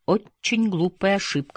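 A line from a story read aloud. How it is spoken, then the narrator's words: Plain. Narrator (Russian): сказал однажды Дидье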